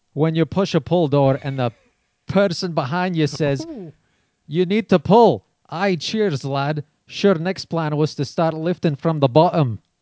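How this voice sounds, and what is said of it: Put-on Scottish accent. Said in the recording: “I know zero about Scottish people ... I like that accent. ... Was good ... That was really good.”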